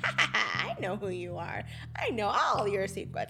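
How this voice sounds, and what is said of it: Joker character voice impression. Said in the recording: “my Mark Hamill impression”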